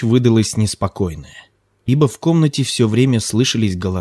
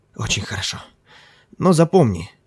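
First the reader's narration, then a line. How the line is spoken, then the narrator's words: Mumbled. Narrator (Russian): пробормотал Ким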